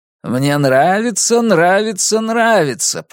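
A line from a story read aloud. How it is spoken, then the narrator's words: Sung. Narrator (Russian): поют Стоунс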